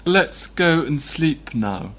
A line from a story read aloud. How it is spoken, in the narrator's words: Katerina Lvovna said slowly, as if worn out and battered